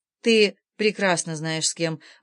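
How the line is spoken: Even-voiced woman. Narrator (Russian): ровным голосом ответила она

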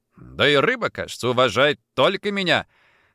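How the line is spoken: Laughing loudly. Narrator (Russian): Лиза захохотала и сказала

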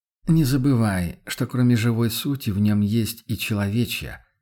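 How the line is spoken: Regretful sigh. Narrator (Russian): вздохнул охотник с сожалением

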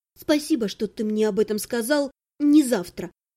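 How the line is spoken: Muttering. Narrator (Russian): пробормотала я

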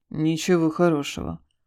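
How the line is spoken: Gloomy. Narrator (Russian): мрачно ответил Игорь

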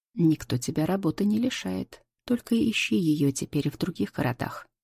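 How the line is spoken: Calm. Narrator (Russian): отвечаю спокойно

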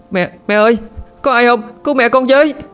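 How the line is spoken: Child's panicked shout. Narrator (Vietnamese): Đứa con hét lên

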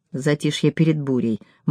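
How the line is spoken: Grim smirk. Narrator (Russian): мрачно усмехнулась я

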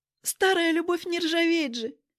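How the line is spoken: Giggling. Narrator (Russian): хихикнула Ритка

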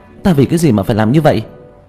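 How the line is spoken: Agitated violent shout. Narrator (Vietnamese): Vương Bình phản ứng rất kịch liệt, kích động hét lên

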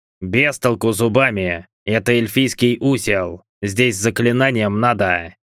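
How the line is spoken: Hoarse bass from the door. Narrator (Russian): Раздалось от двери хриплым басом

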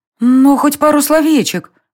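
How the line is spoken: Pleading. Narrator (Russian): взмолилась полуэльфийка

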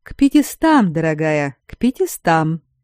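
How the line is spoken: Purring tone. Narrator (Russian): Тем же мурлычущим тоном отозвался разумник

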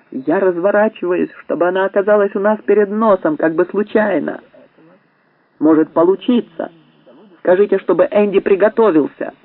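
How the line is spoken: Shouting. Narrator (Russian): Меткалф крикнул

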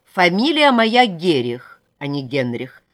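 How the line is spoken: Stern, court official. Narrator (Russian): строго сказал Вере судейский чиновник

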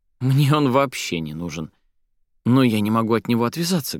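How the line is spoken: Deep sigh. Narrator (Russian): глубоко вздохнула Соня

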